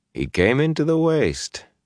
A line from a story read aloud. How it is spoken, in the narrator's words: Rand chuckled